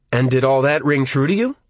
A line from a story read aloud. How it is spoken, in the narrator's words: I asked Michael